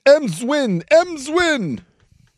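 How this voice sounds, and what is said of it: Poor impression of baseball announcer. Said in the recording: “It was the old Harry Carey. ... That was a terrible impression of dead Harry Carey. ... it kind of sounded like a mix between the Cubs and the Yankee, you know, the Yankee guy.”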